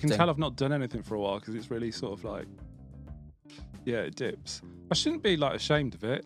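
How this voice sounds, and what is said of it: Birmingham (Brummie) English accent. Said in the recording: “I occasionally sound a bit brummier ... There's been a fair bit of brummy in the preamble for this”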